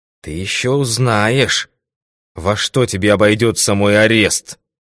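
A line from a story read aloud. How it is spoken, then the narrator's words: Hissing. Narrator (Russian): прошипел он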